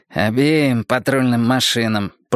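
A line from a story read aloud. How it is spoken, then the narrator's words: Grumbling mutter. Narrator (Russian): пробурчал прыщавый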